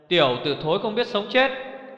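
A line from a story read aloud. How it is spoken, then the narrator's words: Furious shout. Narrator (Vietnamese): Một tiếng quát đầy giận dữ vang lên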